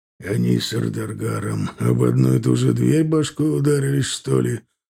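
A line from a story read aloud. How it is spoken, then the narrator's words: Muttered under breath. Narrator (Russian): Пробурчал себе под нос Аркар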